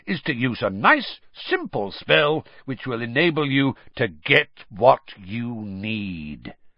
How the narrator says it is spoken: said Moody, loudly interrupting him

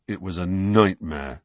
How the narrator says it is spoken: said Ron in a surly voice

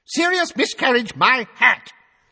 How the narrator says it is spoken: said Fudge at the top of his voice

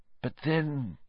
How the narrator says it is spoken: Lupin muttered

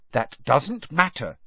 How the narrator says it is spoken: said Hermione firmly

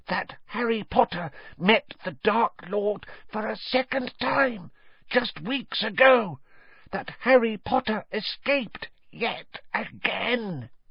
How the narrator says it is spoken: he said hoarsely

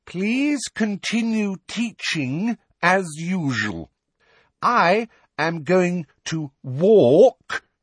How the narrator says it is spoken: said again very loudly and slowly

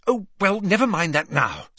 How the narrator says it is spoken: said Hermione hastily

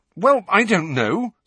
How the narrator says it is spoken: said Harry rather angrily

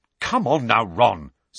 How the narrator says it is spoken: said Angelina crossly

